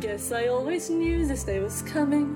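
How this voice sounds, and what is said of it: Theatrical put-on accent. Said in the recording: “What is the point of this accent? ... Is she French?”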